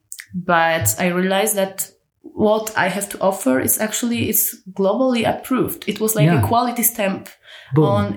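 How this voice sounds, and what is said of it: Polish accent, sounds Russian. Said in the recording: “I'm a Polish girl whose accent is like from Russia”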